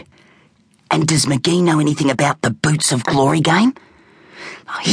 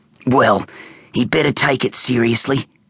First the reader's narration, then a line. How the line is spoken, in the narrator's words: grunted Crusher